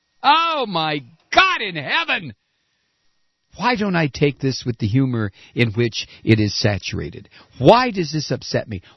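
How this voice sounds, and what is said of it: Screaming, yelling. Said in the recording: “Why am I screaming? Why am I yelling?”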